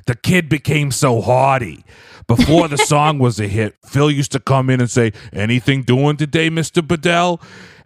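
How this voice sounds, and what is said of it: Imitates another person's voice. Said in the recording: “He said, I'll do a voice.”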